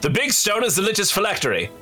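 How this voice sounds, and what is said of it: Put-on English accent. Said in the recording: “I've completely changed accents for some reason... Why can't I lose the English accent?”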